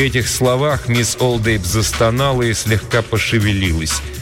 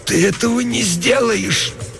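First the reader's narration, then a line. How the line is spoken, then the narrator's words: Groaning hoarse rasp. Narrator (Russian): Она застонала чуть громче и прохрипела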